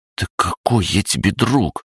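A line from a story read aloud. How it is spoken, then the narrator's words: Hissed. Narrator (Russian): прошипел Дани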